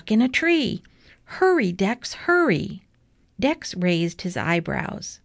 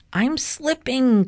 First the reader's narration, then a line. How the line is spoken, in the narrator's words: Clevis screeched